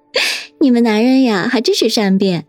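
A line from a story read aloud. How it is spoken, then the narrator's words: Coquettish giggle. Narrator (Chinese): 叶心雨又咯咯的娇笑道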